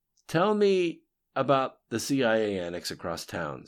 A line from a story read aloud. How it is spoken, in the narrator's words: said Chris flatly